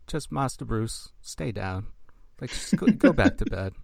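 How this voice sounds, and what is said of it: Alfred character impression. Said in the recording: “Great Alfred impression”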